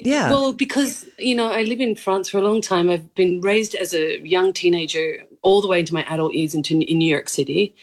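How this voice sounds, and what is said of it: Mild, mixed Australian accent. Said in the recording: “it's not a strong Australian accent... my accent could be a bit mixed... I was just doing my accent. And I'm Australian.”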